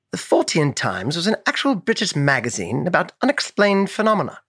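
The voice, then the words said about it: Put-on British accent. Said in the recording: “Say that again in a British accent. ... as a British man reading this fun fact.”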